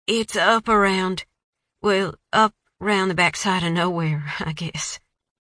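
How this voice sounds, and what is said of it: Rural Tennessee drawl. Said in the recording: “Her accent is pure, rural Tennessee drawl.”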